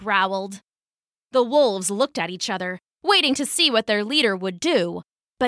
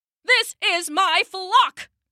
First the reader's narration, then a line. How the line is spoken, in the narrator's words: he bellowed